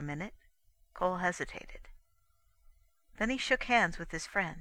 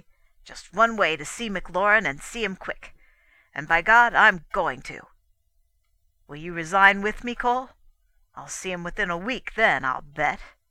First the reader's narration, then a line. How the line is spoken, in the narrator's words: said Kendall angrily